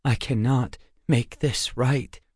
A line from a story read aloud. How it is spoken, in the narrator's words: he muttered